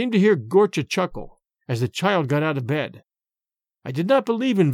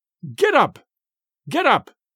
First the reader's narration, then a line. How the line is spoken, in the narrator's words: I shouted with all my strength